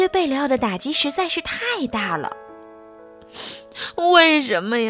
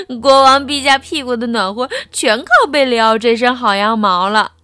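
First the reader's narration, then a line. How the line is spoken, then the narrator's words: Malicious loud laughter. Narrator (Chinese): 小胖墩儿和小刺头不怀好意的大笑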